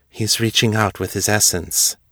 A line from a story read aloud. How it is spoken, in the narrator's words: Xiong said, her voice low and reverent